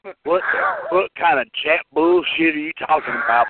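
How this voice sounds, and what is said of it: Put-on Southern American accent. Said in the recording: “I'm giving him a southern accent. He didn't have one”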